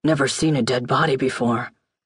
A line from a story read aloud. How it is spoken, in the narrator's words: Matthews whisper under his breath